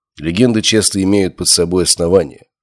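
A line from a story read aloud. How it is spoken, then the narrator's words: Plain. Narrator (Russian): сказал я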